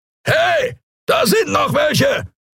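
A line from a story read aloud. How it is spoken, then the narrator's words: Roaring voice. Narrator (German): brüllte eine Skria-Stimme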